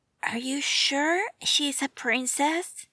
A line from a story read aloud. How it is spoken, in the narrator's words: Dick whispered into Bruce's ears